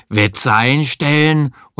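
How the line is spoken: Snapping gruffly. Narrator (German): schnauzten ihn an

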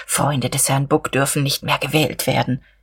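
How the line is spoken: Whispered eagerly. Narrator (German): flüsterte er beflissen

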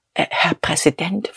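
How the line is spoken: Unsteady whisper. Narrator (German): flüsterte er wankend

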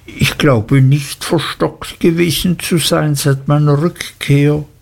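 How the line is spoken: Stammering. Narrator (German): stotterte ich

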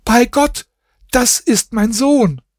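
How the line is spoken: Scream. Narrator (German): schrie sie

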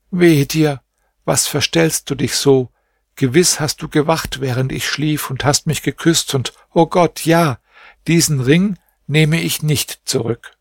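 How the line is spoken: Deep sigh, then speaking. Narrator (German): Da seufzte sie tief auf und sagte

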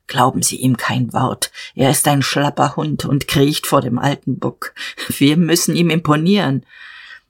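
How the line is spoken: Low murmur. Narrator (German): Jadasson raunte

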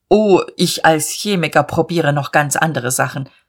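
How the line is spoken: Stern. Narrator (German): Er sagte mit streng gefalteten Brauen

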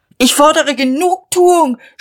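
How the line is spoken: Shouting. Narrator (German): schrie er

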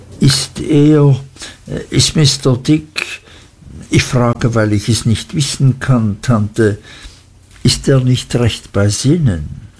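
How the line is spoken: Nervous stammer. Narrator (German): stotterte ich, denn ich fühlte, dass ich mich auf einem gefährlichen Gebiet bewegte

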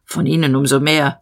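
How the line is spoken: Major growling. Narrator (German): der Major knurrte

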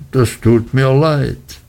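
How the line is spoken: Sad apology. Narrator (German): sagte er und schaute sehr traurig drein

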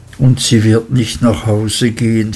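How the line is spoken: Sad interjection. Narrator (German): fiel er ein und schüttelte traurig den Kopf

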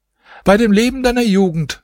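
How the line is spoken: Calling out. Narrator (German): rief die Wirtschafterin

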